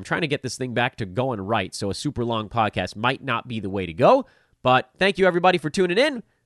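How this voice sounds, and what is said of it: Tired-sounding voice. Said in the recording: “I am tired. My voice is tired.”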